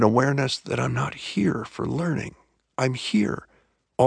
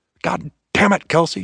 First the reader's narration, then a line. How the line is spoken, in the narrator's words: snapped Natchez